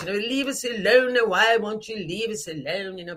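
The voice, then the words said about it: Posh upper-class British accent. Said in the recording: “they have that very accent ... they talk like that, or they think of England or Britain”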